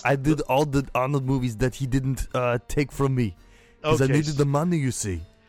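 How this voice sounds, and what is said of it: Arnold Schwarzenegger impression. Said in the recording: “Mr. Schwarzenegger”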